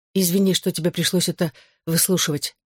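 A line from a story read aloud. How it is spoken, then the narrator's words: Hurried. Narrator (Russian): торопливо добавила я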